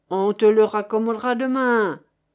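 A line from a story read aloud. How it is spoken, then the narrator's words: Growling. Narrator (French): grogna le garde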